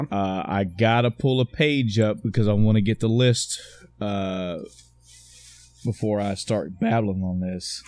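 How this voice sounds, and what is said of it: Slow, halting speech. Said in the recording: “sorry I'm talking so slow”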